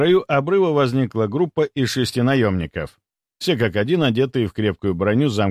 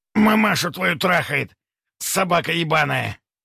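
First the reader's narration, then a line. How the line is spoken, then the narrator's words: Hoarse, smirking, tearful. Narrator (Russian): Прихрипел тот с усмешкой и слезами на глазах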